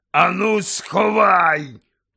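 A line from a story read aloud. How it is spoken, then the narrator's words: Growled into ear. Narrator (Ukrainian): прогарчав йому в ухо дядько Вернон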